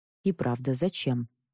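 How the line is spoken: Quiet crowd whispering. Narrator (Russian): тихо зашептались в толпе

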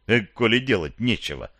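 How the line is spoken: Joking tone. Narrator (Russian): выдал шутливым тоном

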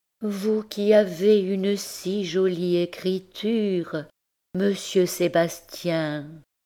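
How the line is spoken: Sighing, languorous voice. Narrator (French): disait-elle d'une voix soupirante et langoureuse

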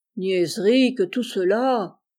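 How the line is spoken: Drowsy grumbling. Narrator (French): grogna Hanté encore engourdi

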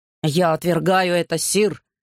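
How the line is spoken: Monk growling. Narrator (Russian): прорычал монах

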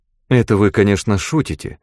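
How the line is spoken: Calm. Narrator (Russian): спокойно сказала Мета

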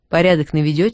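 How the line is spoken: Plain. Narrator (Russian): спросил я

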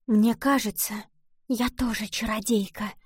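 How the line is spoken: Sudden whisper. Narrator (Russian): вдруг прошептала она

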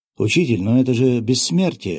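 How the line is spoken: Astonished young apprentice exclaiming. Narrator (Russian): выпучив глаза, воскликнул молодой подмастерье

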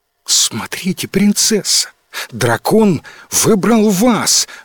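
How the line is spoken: Amazed exclamation. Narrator (Russian): в изумлении воскликнул Луи

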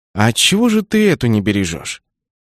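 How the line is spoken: Sighing. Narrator (Russian): Кеннет вздохнул

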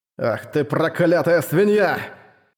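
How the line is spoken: Roar. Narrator (Russian): взревел Мирослав

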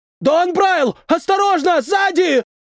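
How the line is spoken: Shouted warning. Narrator (Russian): Прокричал кто-то глазастый

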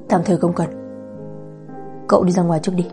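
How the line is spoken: Soft, thoughtful. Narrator (Vietnamese): Lục Trấn Nam trầm ngâm một lát, khẽ nói

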